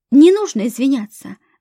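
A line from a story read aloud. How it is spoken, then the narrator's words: Plain. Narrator (Russian): ответила Фатьма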